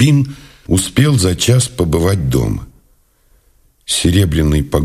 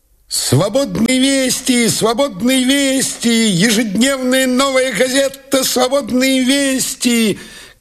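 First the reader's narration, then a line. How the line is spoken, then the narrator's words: Boy newsseller shouting. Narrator (Russian): кричал газетчик-мальчишка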